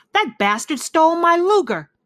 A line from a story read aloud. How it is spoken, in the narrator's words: he shouted